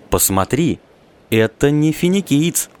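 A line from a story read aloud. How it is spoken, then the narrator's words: Exclaimed. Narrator (Russian): воскликнул старший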